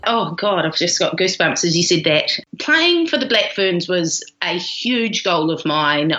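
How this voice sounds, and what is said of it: Strong New Zealand accent. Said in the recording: “got a pretty strong Kiwi accent”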